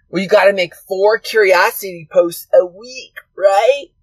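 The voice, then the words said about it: Weird put-on voice. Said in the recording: “that weird voice”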